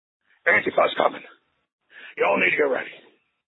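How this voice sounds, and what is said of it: Bad Alex Jones impression. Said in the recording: “a very bad Alex Jones impression ... a bad Alex Jones impression followed by some pretty good commentary”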